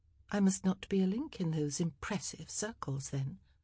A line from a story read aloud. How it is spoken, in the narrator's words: Penelope murmured